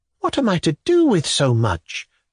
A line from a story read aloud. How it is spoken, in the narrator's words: the woman sighed obsequiously